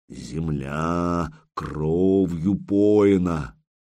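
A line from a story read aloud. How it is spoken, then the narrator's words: Creaking voice of dead man. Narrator (Russian): кто-то голосом Рериха усопшего проскрипел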